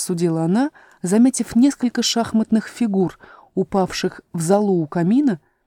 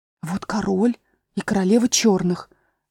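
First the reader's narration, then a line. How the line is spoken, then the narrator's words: Cautious whisper. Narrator (Russian): сказала Алиса шепотом, боясь их спугнуть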